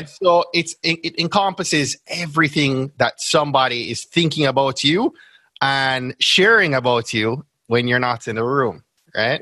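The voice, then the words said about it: Jamaican accent. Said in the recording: “they hear my Jamaican accent”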